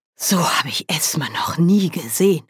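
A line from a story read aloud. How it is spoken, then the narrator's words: Panting. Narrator (German): keuchte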